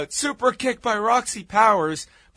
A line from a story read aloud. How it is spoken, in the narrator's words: the announcers yell out